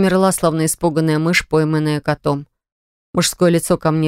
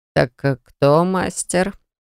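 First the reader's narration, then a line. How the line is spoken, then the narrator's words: Quiet ingratiating question. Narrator (Russian): Тихо и вкрадчиво спрашивает он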